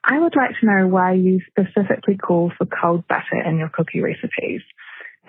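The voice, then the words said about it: Delightful accent. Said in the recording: “Delightful accent.”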